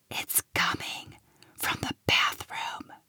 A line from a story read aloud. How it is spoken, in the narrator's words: Lil whispered